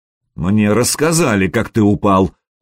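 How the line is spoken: Young prince, through teeth. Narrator (Russian): процедил княжич

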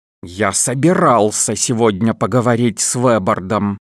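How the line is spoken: Through gritted teeth. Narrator (Russian): процедил сквозь зубы Эрл

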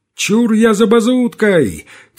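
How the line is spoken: Shouted. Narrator (Russian): крикнул чей-то голос

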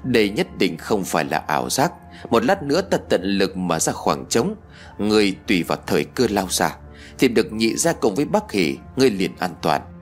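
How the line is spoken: Low voice. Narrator (Vietnamese): Hắn nhỏ giọng nói với tôi

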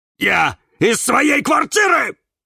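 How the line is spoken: Angry bark. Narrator (Russian): рявкнул на нее Кирилл

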